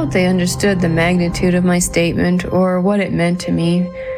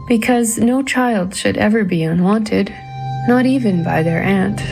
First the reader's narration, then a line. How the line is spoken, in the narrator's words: said, my voice beginning to crack